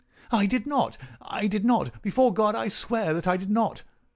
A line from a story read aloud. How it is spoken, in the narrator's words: cried our wretched prisoner